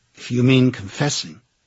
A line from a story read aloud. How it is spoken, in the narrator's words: she said